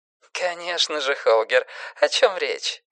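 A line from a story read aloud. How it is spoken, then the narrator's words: Laughing, over phone. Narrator (Russian): рассмеялась женщина в трубке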